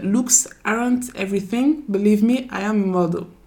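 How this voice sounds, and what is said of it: English spoken with non-native accent. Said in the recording (French): “J'ai un accent pourri. ... non, il est très bien ton accent”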